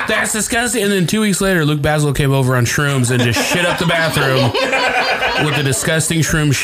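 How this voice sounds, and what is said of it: Usual voice. Nothing is said of it.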